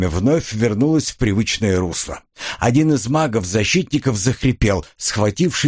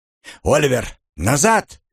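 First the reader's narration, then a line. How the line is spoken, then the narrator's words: Shout. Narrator (Russian): крикнул я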